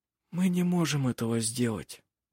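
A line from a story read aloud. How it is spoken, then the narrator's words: Quiet speech. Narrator (Russian): тихо сказал Жено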